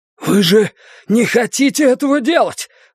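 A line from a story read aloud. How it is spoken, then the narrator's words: Breathless exhale. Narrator (Russian): выдохнул он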